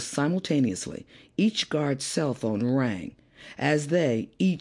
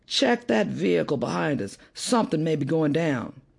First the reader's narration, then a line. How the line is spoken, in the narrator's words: Reifer called out to Larson in the rear